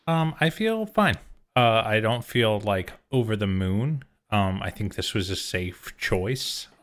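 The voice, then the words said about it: Calm measured public-radio style voice. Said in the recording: “You break out your NPR voice.”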